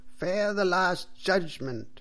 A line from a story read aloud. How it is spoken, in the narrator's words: cried the priest loudly and angrily